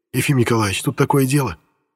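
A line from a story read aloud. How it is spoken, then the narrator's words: Loud whisper. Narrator (Russian): громко зашептал он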